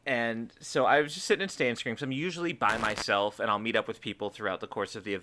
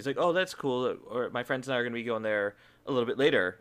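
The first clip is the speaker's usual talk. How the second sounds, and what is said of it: Laid-back bro dude voice. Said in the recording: “giving him a yeah dude voice”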